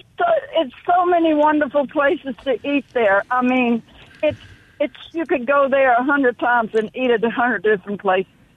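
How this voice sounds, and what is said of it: New Orleans accent. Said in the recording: “can you hear the New Orleans in her voice? ... In that accent.”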